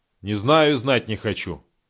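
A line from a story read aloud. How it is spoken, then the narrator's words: Cold, curt retort. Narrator (Russian): холодно отрезал Таран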